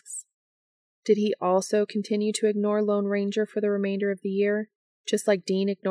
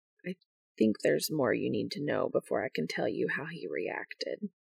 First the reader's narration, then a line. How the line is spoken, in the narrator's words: he said, his voice low